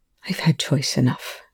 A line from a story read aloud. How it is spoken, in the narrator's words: Rush said bitterly